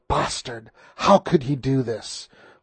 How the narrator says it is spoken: Juanita spat

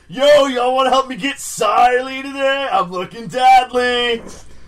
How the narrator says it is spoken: yells to a bunch of girls

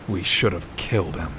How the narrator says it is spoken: muttered into the collar of his greatcoat

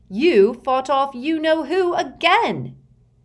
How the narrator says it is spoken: Ron said, almost shouting now

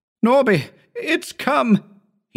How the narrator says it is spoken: he shouted

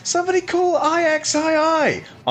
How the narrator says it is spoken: I laughed

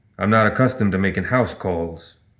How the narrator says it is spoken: Vincent growled

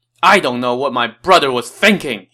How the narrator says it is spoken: shouted

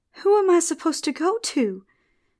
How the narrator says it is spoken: the girl cried

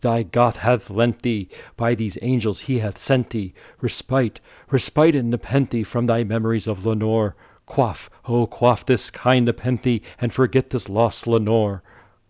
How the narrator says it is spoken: I cried

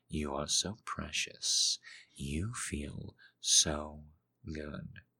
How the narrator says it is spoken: he murmured

